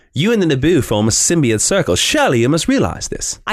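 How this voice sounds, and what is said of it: Ewan McGregor's Obi-Wan Kenobi impression. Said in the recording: “do your Ewan McGregor Obi-Wan Kenobi impression ... Ewan McGregor's doing a pretty good Alec Guinness ... you do a pretty mean impersonation of both”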